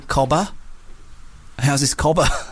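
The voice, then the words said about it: Weak put-on Australian accent. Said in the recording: “my Australian accent ... I was doing it there, but I don't think it was great ... It's a bit more South African, maybe, your one.”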